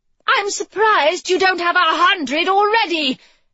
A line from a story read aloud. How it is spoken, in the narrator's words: Her face felt like it was on fire, she called out